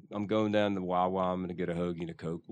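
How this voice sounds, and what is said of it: Philadelphia accent. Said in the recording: “What's the Philly accent? Can you do it? ... That was solid.”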